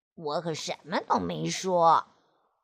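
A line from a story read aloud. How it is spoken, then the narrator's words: Shy mumbling. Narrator (Chinese): 菲菲不好意思的，嘴里嘟囔着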